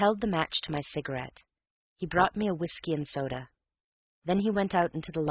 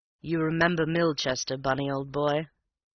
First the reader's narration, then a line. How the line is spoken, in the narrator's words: His tone was as bland